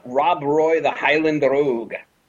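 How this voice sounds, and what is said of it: Brief put-on Scottish accent. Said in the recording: “that's as much of a Scottish accent you're going to get out of me”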